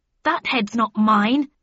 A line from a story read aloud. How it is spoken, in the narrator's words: I shouted